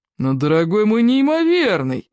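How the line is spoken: Exclaimed. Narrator (Russian): воскликнул он

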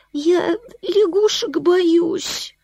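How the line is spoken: Whimpering. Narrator (Russian): захныкала

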